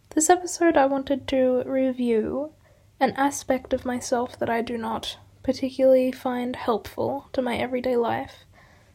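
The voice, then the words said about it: Raspy, hoarse voice. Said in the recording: “I apologise for my raspy voice. Hopefully I'll be better soon.”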